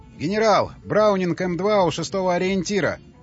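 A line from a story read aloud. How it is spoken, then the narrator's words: Shouting. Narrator (Russian): закричали с радиопоста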